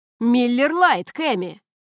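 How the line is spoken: Impatient shout, young man. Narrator (Russian): снова прокричал парень, на этот раз менее терпеливо

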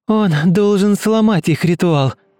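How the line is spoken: Shouting. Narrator (Russian): крикнула Ульяна

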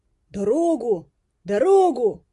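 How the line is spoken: Shouting while pushing through crowd. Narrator (Russian): кричал проталкиваясь сквозь толпу

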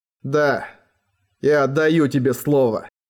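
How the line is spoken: Breathed out. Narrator (Russian): выдохнул он

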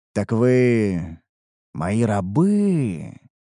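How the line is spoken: Drawn-out drawl. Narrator (Russian): протянул я

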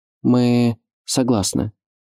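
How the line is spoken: Timid but confident. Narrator (Russian): робко, но уверенно произнес Адам

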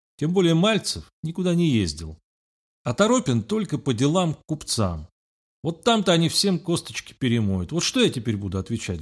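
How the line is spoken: Sighing. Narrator (Russian): вздохнула

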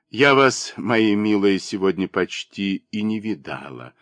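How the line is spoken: Soft. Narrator (Russian): мягко сказала она

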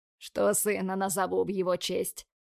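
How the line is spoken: Groaning. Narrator (Russian): простонал Тим

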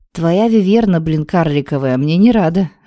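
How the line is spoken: Grumbling. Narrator (Russian): пробурчал Вал

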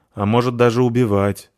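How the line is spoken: Gloomy addition. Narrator (Russian): мрачно добавляет зверушка

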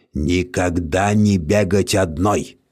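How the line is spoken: Muttering. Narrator (Russian): бурчал волчье сердце

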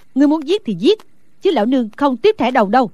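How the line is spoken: Shout. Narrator (Vietnamese): Cao Tam Nương Tử quát lên

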